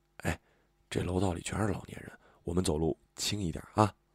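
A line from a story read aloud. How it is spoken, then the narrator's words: Quiet voice. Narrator (Chinese): 我小声说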